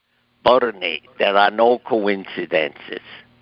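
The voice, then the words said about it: Imitated Swiss accent of Kubler-Ross. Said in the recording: “Elizabeth Kubler-Ross ... that's her Swiss accent”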